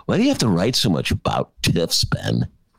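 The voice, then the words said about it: Imitation of a Gen X person. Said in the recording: “my Gen X imitation”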